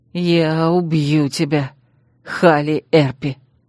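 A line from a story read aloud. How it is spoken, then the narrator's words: Hoarse, wry smirk. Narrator (Russian): Криво усмехнувшись, он хрипло выдал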